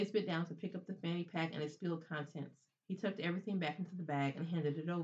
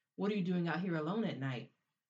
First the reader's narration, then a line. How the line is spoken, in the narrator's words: asked in a growl nearly as fierce as when he spoke into the L Street punks